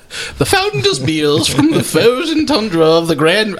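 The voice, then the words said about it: Poor posh British accent. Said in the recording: “That was a terrible British accent. ... It's my London pithy poshy ... Julia Child-ish ... It was pretty pitiful”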